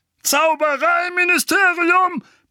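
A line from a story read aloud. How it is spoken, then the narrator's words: Roaring. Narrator (German): brüllte Onkel Vernon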